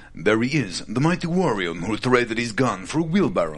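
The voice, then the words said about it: Over-the-top French accent. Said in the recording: “the French accent ... we were sort of in Inspector Clouseau ... very over the top”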